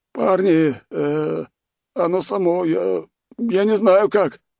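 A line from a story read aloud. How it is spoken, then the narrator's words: Mumbling. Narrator (Russian): начал мямлить он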